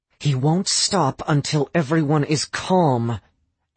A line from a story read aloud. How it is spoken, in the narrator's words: Astrid said through gritted teeth